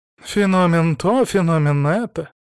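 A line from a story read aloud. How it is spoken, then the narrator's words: Sighing. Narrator (Russian): вздохнул Антон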